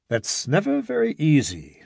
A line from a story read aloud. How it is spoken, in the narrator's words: said Norden